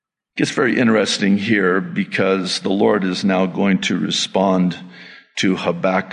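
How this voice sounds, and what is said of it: Usual voice. Nothing is said of it.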